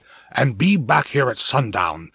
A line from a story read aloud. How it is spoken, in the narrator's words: Eric muttered